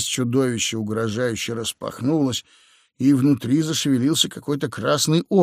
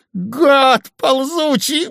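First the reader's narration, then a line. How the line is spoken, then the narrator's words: Shouting. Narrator (Russian): закричал Удалов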